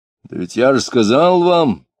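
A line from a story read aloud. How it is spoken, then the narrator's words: Rude loud shout. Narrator (Russian): грубо и громко крикнул Иноков из-за спины офицера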